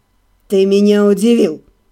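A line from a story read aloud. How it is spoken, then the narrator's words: Hoarse. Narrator (Russian): хрипло проговорил Даниэль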